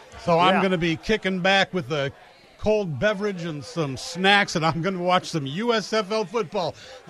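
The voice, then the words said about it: Sarcastic, mock-enthusiastic delivery. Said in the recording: “That was sarcasm”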